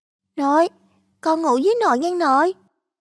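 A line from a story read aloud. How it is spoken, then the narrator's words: Trembling child's voice. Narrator (Vietnamese): cất giọng run run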